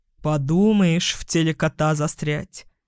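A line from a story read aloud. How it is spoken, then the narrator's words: Grumbling, feigned nonchalance. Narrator (Russian): проворчал он с показной небрежностью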